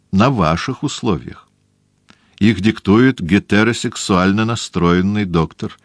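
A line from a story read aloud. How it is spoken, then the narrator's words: Plain. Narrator (Russian): сказал иезуит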